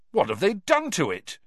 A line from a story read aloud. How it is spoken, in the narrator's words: Cedric said indignantly